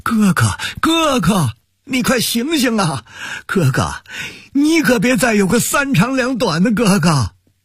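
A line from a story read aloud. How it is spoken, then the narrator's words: Sobbing, crying out. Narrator (Chinese): 王俊山 哭喊着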